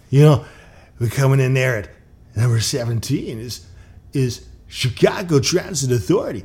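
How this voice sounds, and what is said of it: Casey Kasem impression. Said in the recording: “my favorite impression. Casey Kasem”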